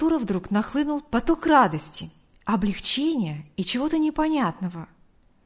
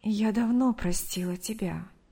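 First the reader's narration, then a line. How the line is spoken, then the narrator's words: Soft. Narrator (Russian): мягко ответила Мария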